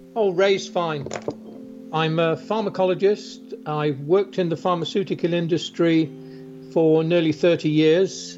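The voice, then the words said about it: British accent. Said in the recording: “If you haven't guessed from the accent, that's the British Pharmacological Society”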